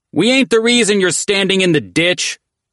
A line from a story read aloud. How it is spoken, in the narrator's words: Culprit shouted, when a particularly daring shepherd boy pelted them with goat shit